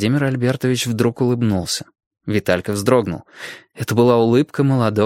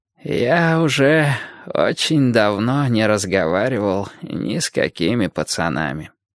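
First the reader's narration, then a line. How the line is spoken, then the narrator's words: Mutter. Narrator (Russian): пробормотал Владимир Альбертович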